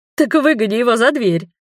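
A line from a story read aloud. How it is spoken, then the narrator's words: Chuckling drow. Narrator (Russian): хохотнула дроу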